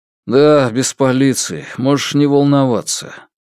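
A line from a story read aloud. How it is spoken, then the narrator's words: Deep sigh. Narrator (Russian): Сун Дачунь глубоко вздохнул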